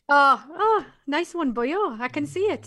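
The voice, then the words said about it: Put-on Welsh accent. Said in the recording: “That's my Welsh accent.”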